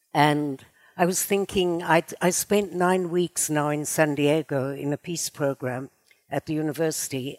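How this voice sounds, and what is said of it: South African accent. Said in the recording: “the beginning of my life was in South Africa, as you probably can hear from my charming accent.”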